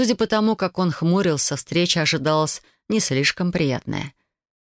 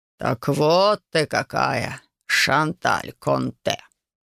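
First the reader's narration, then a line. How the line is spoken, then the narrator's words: Mage drawling. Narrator (Russian): Протянул второй маг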